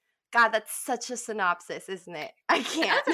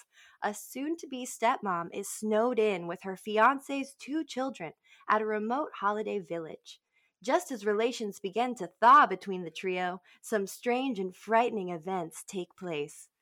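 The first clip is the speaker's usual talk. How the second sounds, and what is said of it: Polished radio announcer voice. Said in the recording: “That's a beautiful little radio voice you did for reading it, too.”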